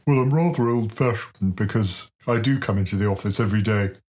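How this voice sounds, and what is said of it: Plummy Andrew Bailey impression. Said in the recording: “your Andrew Bailey impression ... Dial up the plum.”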